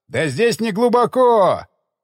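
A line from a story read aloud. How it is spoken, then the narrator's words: Loud yell. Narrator (Russian): заорал Дик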